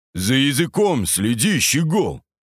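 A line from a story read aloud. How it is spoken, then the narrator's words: Exasperated growl. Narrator (Russian): Не выдержав, прорычал Костолом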